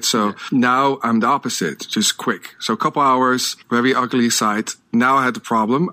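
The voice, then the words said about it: Non-native English accent. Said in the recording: “as you can hear, I have an accent. English is not my first language.”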